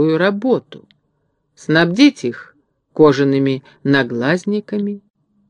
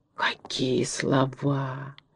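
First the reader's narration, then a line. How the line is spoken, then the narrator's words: Admiring crowd whispers. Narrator (Russian): восхищенно шептали горожане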